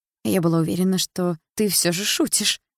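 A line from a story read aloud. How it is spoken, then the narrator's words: Muttering to oneself. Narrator (Russian): Бормочу себе под нос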